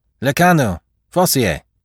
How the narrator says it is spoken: The sergeant called out

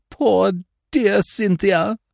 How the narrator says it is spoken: moaned Miss Clarkson

